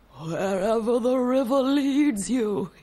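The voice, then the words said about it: Gandalf impression. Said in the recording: “That was my Gandalf impression.”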